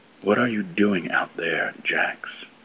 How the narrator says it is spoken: She asked, and this time her tone was gentler

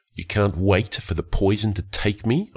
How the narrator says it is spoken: said a little bitterly

